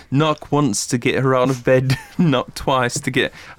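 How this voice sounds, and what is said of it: Put-on British Beatles-style accent. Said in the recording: “How does it sound in Britain? ... I don't know why I suddenly went with like a Beatles.”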